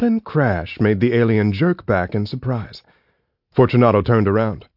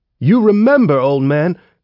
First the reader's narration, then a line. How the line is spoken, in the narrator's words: the kid shouted